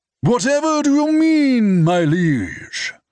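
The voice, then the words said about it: Dramatic medieval accent. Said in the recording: “in a dramatic medieval accent”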